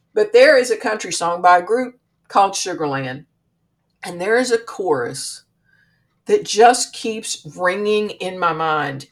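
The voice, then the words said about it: Country accent. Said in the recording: “I've got country roots, as you can tell from my voice.”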